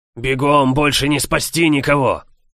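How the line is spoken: Growled. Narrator (Russian): рыкнул

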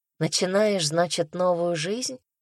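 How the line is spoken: Rhetorical mutter. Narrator (Russian): пробормотала я, не ожидая ответа

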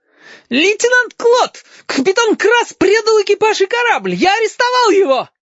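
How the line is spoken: Near shriek. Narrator (Russian): Хариус почти визжал

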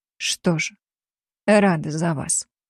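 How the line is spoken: Quiet. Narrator (Russian): тихо сказала я

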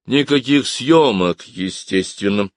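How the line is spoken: Weary. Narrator (Russian): устало произнес он

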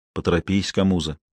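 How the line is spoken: Quiet command. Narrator (Russian): тихо приказал Лабенгула

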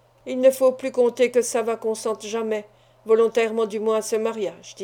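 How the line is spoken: Plain. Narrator (French): dit-il

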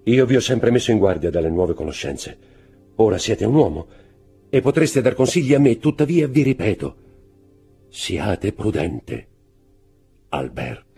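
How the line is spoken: Agitated voice. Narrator (Italian): disse con voce alterata

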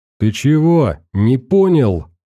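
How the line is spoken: Yelling. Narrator (Russian): заорал писарь

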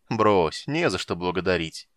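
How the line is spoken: Laughing. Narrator (Russian): засмеялся купец

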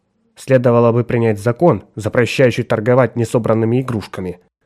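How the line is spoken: Grumbling under breath. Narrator (Russian): буркнула себе под нос Николь

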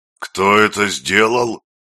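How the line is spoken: Roared. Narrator (Russian): взревел дядя Юра

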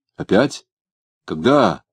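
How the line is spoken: Very alarmed exclamation. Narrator (Russian): очень тревожно воскликнул Дмитрий

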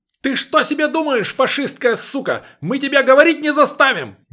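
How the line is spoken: Sudden yell. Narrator (Russian): неожиданно заорал Старлей

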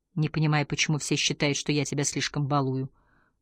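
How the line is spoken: Whispered. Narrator (Russian): прошептал Ингвар

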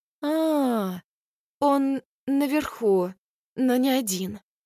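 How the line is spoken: Confused young woman. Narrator (Russian): растерянно произносит девушка

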